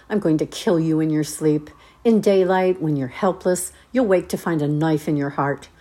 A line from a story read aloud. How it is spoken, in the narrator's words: snarled